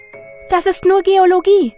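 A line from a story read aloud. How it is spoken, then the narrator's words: Called out. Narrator (German): rief sie noch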